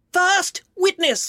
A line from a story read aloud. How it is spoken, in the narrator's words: the White Rabbit called out